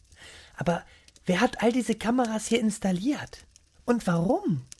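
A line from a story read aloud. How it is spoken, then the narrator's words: Whispered speculation. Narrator (German): flüsterten und spekulierten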